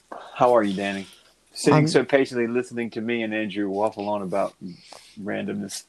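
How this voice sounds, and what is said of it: Usual voice. Nothing is said of it.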